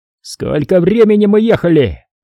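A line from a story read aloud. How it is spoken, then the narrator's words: Yelling. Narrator (Russian): опять заорал ротный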